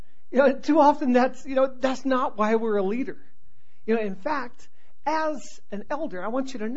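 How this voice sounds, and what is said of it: Usual voice. Nothing is said of it.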